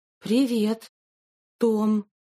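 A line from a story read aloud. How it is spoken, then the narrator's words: Mumbling. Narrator (Russian): промямлила она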